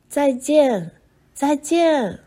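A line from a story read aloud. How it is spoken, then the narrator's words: Several voices, loud. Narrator (Chinese): 爷爷、奶奶和乔治叔叔对他们大声说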